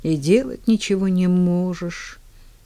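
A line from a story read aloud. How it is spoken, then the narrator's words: Tired summary after pause. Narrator (Russian): подытожил он устало, немного помолчав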